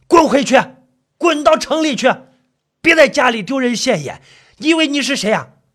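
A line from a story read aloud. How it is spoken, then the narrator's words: Angry father roaring. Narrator (Chinese): 他父亲更加恼火…吼着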